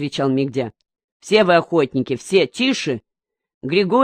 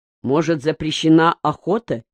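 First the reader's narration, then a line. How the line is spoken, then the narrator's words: Plain. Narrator (Russian): спросил Григорий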